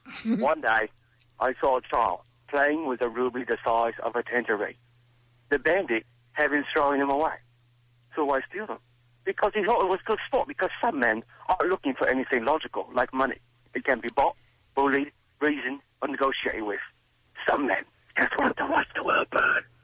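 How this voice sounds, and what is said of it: Michael Caine impression. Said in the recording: “Who's your impression? ... I got Michael Caine.”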